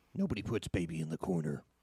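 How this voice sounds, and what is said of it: Gravelly put-on sexy voice. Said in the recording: “What's that voice? ... Is that your voiceover voice? ... That's my sexy voice. ... Fucking sound like goddamn Beetlejuice ... You sound like Liam Neeson if he smoked for 50 years. ... he sounds like fucking my great-grandmother.”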